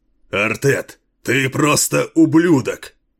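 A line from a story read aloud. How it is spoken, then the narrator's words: Growled in reply. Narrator (Russian): Прорычал ему в ответ Кейн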